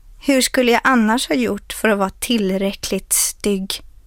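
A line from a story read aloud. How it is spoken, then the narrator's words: Plain question. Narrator (Swedish): frågade han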